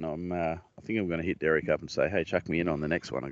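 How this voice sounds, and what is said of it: Speaks with a regional accent. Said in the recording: “the phone hasn't really got the hang of my accent”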